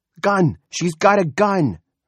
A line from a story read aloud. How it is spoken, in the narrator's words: Freddie Denton shouted